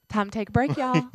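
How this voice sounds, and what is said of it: Slight put-on Southern accent. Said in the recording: “with a slightly southern accent”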